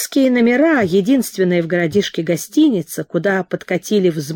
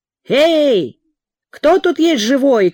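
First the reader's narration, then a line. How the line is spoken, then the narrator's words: Shout. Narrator (Russian): крикнул Петр Данилович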